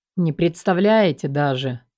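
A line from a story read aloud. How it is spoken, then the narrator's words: Gloomy reply. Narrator (Russian): мрачно отозвался Макс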